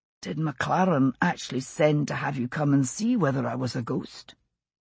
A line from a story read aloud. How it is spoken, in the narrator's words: Roger said quietly to Dougal